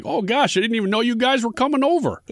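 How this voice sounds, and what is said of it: North Midwestern accent. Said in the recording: “Why does he sound like he's from the North Midwest? ... Had to go with an accent.”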